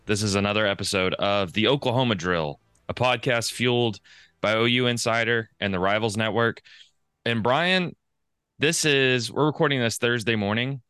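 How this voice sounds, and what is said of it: Hoarse, strained voice. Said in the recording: “I went to the game last night ... my voice is messed up, man. This is brutal.”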